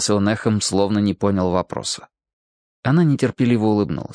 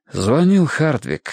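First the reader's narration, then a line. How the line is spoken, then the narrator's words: Breathless exhale. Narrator (Russian): выдохнул Гурни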